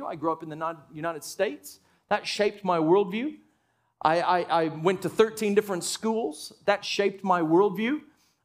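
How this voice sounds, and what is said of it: Mixed American-Australian accent. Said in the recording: “I have a quasi-weird accent because I've spent almost half of my life in Australia.”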